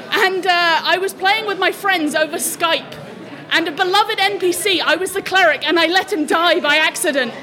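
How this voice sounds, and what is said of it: New Zealand-influenced accent. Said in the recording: “I used to live in New Zealand, which is why I have this funny voice.”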